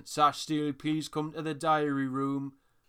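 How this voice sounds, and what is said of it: Booming Geordie accent announcer voice. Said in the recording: “a big booming Geordie accent ... that impression”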